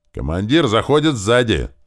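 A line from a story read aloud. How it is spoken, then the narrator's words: Frantic shout. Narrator (Russian): истошно выкрикнул заместитель сотника Климент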